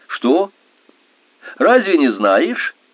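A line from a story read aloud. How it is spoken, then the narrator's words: Laughing. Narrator (Russian): она смеялся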